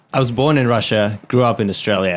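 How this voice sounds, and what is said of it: Russian-Australian accent. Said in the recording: “I knew that was an Australian accent. ... You sound Russian. ... I knew that was a Russian accent. ... you have, like, a Russian-Australian accent? ... Yeah, totally.”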